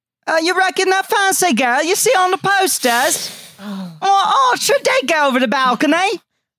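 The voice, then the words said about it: Put-on British accent. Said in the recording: “can you do a British accent? An English accent? ... That accent you saw go over the balcony. That one. ... That was the fake one.”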